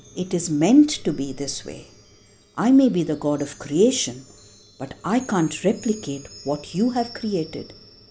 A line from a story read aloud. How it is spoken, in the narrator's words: Brahma said in a calm voice